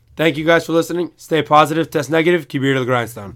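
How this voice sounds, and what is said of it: Hoarse, worn-out voice. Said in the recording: “Listen to my voice. We're getting old. ... your voice is gone. ... And my voice is gone.”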